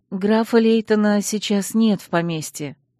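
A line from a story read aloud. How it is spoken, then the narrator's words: Sighing. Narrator (Russian): вздохнула я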